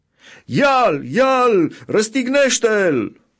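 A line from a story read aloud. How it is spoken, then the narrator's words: Crowd shouting. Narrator (Romanian): ei au strigat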